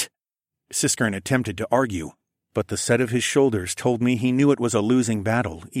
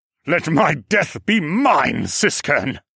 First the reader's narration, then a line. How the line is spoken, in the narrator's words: he snapped, and then he coughed pitifully